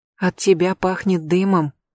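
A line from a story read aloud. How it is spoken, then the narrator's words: Muffled close whisper. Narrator (Russian): прошептала она в шею Рэйчел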